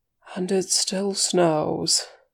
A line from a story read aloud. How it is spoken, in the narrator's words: Gandalf sighed